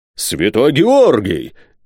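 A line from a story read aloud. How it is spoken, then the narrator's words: Exclamation. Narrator (Russian): воскликнул майор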